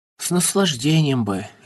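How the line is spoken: Apologetic, moved. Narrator (Russian): извинительным голосом сказал растроганный Эрзи

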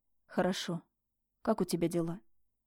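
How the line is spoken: Quiet question. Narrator (Russian): Тихо поинтересовался

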